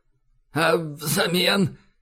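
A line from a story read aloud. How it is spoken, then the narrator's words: Slightly hoarse question. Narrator (Russian): хрипловато поинтересовался Лавкач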